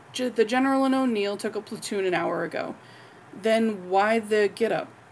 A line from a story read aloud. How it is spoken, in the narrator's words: Rodney sighed